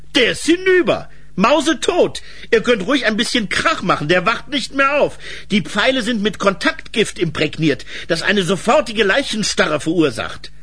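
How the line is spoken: Voice calling from forest. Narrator (German): rief da eine Stimme aus dem Wald

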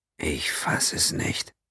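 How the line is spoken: Murmur. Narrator (German): murmelte Quinn

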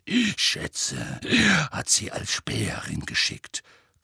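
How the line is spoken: Growling. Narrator (German): knurrte Moody

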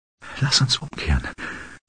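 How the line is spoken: Whispering. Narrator (German): flüsterte

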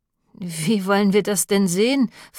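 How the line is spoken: Slightly mocking question. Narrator (German): fragte Lilly ein wenig spöttisch

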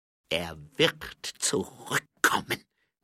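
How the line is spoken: Hissed. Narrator (German): zischte

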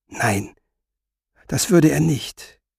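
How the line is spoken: Whispered reply. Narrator (German): flüsterte Resa zurück

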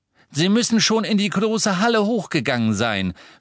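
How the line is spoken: Called out. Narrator (German): rief Mr

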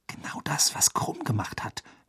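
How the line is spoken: Whispered. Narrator (German): flüsterte Hermine

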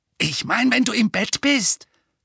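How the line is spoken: Hissed. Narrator (German): fauchte Dudley

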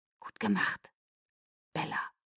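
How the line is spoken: Soft praise. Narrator (German): lobte Benjamin leise

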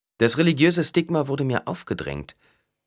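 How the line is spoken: Plain. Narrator (German): sagte Paul

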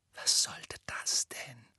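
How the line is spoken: Fearful whisper. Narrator (German): flüsterte Ron angstvoll

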